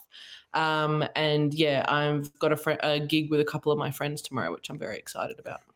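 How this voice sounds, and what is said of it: Australian accent. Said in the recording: “by the accent, you can probably tell I'm from Australia”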